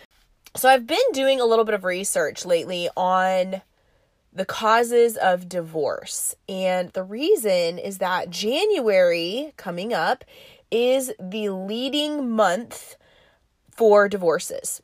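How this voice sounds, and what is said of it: Congested voice from a cold. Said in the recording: “I have a little bit of a cold, and so you will have to bear with me on coughing and sounding a little bit stopped up.”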